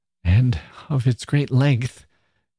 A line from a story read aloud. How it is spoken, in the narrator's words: gasped Mrs